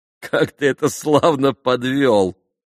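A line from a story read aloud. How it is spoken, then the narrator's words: Sudden laugh. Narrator (Russian): засмеялся вдруг Алеша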